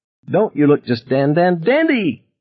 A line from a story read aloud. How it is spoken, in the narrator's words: Dickie Cable cried merrily